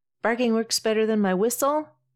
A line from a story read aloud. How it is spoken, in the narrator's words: Camus shouts behind them, trying to catch up